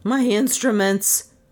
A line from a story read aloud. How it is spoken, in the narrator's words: Trent gasped